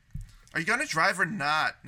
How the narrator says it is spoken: Nikki said impatiently

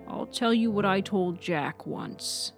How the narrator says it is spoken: said

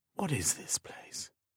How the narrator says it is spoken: asked in a hushed voice

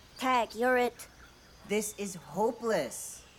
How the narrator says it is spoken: a voice shouted from above

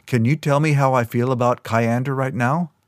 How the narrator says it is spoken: Kyo laughed

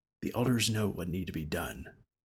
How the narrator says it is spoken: Sir whispered

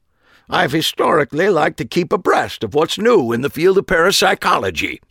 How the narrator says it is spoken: he said indignantly

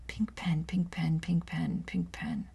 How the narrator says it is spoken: with nervousness, muttered under my breath

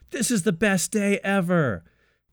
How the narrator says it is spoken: yells over the crowd noise

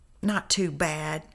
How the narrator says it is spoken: he said

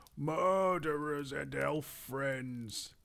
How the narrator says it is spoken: the great goblin shouted

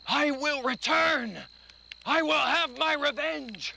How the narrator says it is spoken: he screamed out, burned alive, he cried out

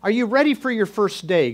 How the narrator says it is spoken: God asked

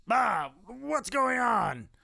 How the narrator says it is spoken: yell out

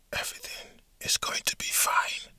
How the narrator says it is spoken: she muttered under her breath

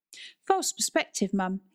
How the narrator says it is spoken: exclaimed Nan

